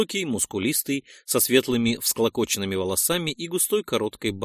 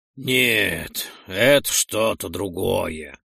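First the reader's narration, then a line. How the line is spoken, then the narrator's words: Deep bass voice. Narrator (Russian): произнес Гигион басовитым голосом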